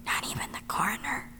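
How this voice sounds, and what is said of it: Whispering. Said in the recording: “Why are we whispering? ... You can stop whispering.”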